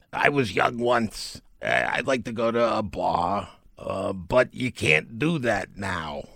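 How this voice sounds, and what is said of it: Impression of Dr. Fauci. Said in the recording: “That was a great impersonation.”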